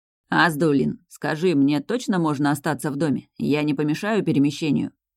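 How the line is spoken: Plain. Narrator (Russian): спросил Мирослав

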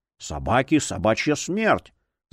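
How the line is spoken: Angry breathed exclamation. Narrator (Russian): зло выдохнул кто-то из родственников

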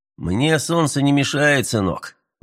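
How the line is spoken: Tired reply. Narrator (Russian): устало отозвался американец

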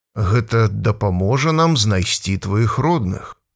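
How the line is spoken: Calm, slow, explaining. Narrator (Belarusian): казаў Станіслаў Сцяпанавіч, спакойна і павольна бы тлумачыў малому

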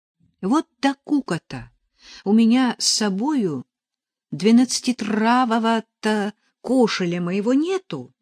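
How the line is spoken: Almost moaning. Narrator (Russian): почти простонала Параша

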